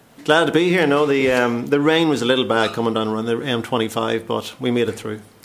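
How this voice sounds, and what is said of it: Northern Irish accent. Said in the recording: “There's a definite accent there. ... obviously originally Northern Ireland, County Tyrone”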